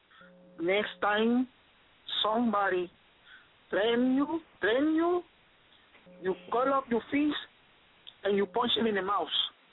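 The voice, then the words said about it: Thick Spanish accent. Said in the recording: “my dad, who has a very thick Spanish accent”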